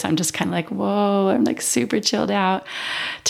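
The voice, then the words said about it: Calm, relaxed voice. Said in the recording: “I'm so calm right now. I don't know if you can hear it in my voice.”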